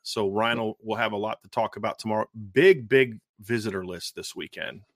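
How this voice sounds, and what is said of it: Hoarse, nearly lost voice. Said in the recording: “My voice is about gone”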